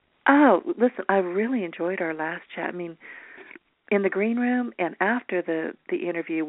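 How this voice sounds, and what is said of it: Rough, unused morning voice. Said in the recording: “sorry for my voice. ... I haven't spoken to anybody this morning, so I didn't know how bad it was.”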